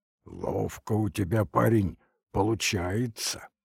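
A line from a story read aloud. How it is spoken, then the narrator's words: Admiring hoarse low voice. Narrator (Russian): восхищенно сказал простуженным баском автоматчик Павел Некрасов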